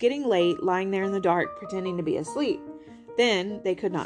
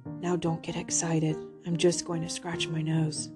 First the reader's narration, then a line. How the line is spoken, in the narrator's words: Michael whispered